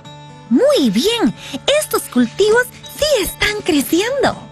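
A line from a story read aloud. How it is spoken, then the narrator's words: Exclaimed. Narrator (Spanish): exclamó Ana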